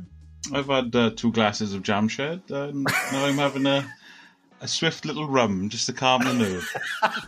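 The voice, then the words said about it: Welsh accent. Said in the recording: “Listen to that Welsh accent.”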